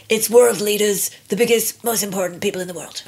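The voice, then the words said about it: Donald Trump impression. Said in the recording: “your Brian Trump impersonation”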